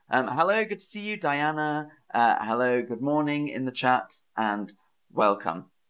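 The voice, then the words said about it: Southern English accent. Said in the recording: “my dialect, which is Southern English. Southern English. So I speak like how people speak from Southern England.”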